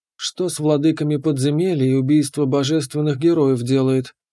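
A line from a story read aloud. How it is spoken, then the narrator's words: Sighing, head shaking. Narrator (Russian): вздохнула, качая головой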